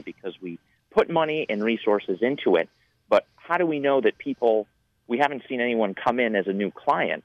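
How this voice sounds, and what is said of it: Energetic radio-style voice. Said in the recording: “I love that you're a bundle of energy, buddy... You've got a radio voice”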